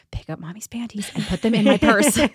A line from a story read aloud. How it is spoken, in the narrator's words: I whispered to my daughter